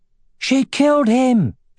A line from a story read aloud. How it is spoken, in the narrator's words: shouted one of the guards